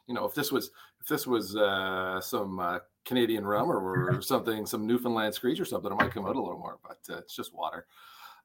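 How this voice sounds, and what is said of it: Mild Canadian accent. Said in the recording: “The guys are talking about our Canadian accent, which I thought, my Canadian accent is not too bad.”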